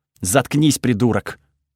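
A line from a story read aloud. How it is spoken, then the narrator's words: Snorted. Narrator (Russian): фыркнул Тхаги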